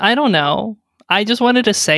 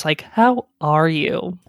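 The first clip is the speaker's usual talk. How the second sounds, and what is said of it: Condescending tone. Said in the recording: “say it in a really condescending voice.”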